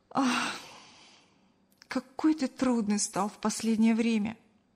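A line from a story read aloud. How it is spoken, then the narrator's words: Sighing. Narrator (Russian): вздохнула Кристина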